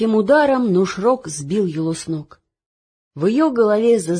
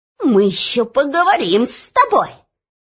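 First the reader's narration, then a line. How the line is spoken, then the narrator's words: Spiteful squeak. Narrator (Russian): злобно пропищал министр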